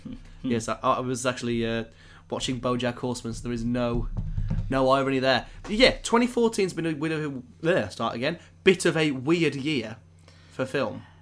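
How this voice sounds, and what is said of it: Hoarse voice. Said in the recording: “I do apologise if I sound a little bit hoarse this episode ... I have come down with a little bit of a cold, a little bit of a sore throat ... Feeling a bit hoarse, aren't we? ... Bit hoarse.”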